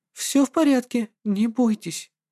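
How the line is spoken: Honeyed whisper. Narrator (Russian): медовым голосом прошептала

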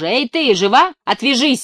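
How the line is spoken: Angry startled yell. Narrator (Russian): заорал я злобно, так как от неожиданности у меня дрогнула рука и камень придавил палец

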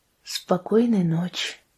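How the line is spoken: Quiet. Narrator (Russian): негромко молвила Мэри Руф

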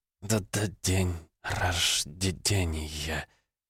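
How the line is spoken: Forced out through tears. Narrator (Russian): выдавила она из себя, отпуская на волю слезы и боль

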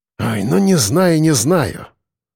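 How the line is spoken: Sigh. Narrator (Russian): вздохнул подполковник

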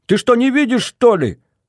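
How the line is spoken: Yelling over engine noise. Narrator (Russian): заорал я, стараясь перекричать рев дизеля и грохот колес

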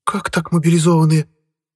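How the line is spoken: Shrieking wail. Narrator (Russian): завопила девица

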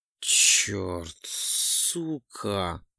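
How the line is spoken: Groaning. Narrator (Russian): Застонал я

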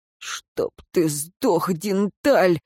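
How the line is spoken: Hoarse croak. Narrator (Russian): прохрипел смотритель

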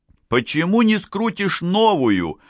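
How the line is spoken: Indignant exclamation. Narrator (Russian): возмущенно воскликнул Фрелик

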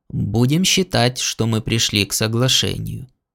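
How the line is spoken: Calm conclusion. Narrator (Russian): спокойно заключил

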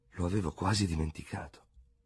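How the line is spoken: Remorseful murmur. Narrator (Italian): mormorò con tono di rimorso

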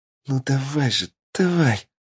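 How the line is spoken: Whisper from behind. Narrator (Russian): прошептала позади меня лиса

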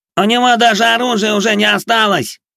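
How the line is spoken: Shout. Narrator (Russian): выкрикнул Плешивый

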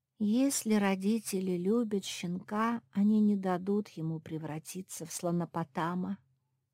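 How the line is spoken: Sighing. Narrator (Russian): вздохнула Лиззи

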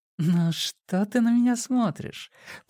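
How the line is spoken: Purring. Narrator (Russian): промурлыкала Матильда

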